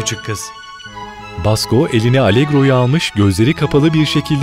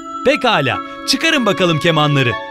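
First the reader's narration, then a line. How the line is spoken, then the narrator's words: Joyful shout. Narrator (Turkish): diye bağırdı sevinçle Vivaldi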